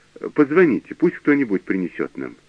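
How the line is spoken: Plain. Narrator (Russian): сказал

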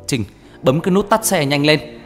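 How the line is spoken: Loud yell. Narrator (Vietnamese): Anh liền hét lớn

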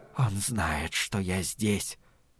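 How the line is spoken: Whisper. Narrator (Russian): прошептала она

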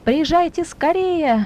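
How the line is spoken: Shouting into phone. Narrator (Russian): кричал в телефонную трубку

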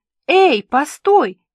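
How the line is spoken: Exclaiming. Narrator (Russian): воскликнула

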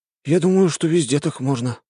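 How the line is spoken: Sighing. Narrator (Russian): вздохнул Фипче

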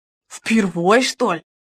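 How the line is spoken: Unbothered grumble. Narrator (Russian): пробурчал мастер, отнюдь не огорченный таким поворотом событий

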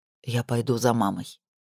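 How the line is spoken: Father speaking quietly. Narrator (Russian): сказал папа тихо

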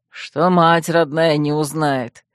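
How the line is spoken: Quiet knowing chuckle. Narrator (Russian): тихонько хохотнул Шранк, уже чувствуя, чем дело кончится

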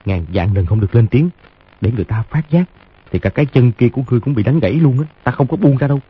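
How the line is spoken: Low threatening voice. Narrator (Vietnamese): hạ giọng dọa

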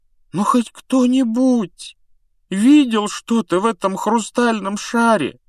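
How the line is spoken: Miserable voice. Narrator (Russian): спросил Невилл несчастным голосом

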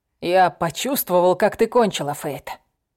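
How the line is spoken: Growled into ear. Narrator (Russian): прорычал он мне на ухо

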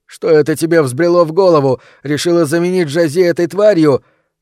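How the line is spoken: Angry shout. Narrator (Russian): закричал он

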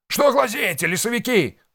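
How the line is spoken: Yelling. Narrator (Russian): заорал он

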